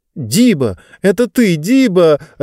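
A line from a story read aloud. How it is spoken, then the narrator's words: Joyful exclamation. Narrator (Russian): радостно восклицала Лектория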